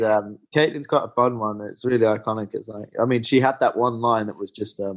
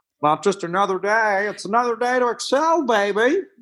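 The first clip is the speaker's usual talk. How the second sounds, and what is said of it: Caitlyn Jenner impression. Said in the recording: “your Caitlyn Jenner impression”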